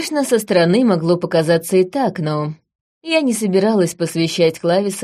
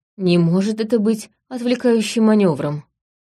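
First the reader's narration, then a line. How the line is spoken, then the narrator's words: Grim question. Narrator (Russian): спросил Клавис мрачно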